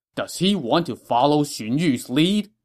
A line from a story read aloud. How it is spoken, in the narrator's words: Cao Cao said angrily